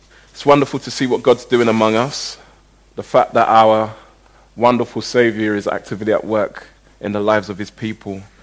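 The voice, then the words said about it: Congested voice, recovering from flu. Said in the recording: “I sound a bit congested, I'm just getting over the man flu”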